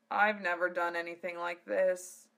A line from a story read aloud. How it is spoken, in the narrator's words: Zell moaned